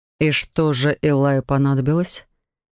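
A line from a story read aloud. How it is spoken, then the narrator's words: Displeased grumble. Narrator (Russian): недовольно пробурчал Себастьян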